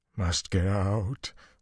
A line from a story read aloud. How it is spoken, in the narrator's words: Luce Theron moaned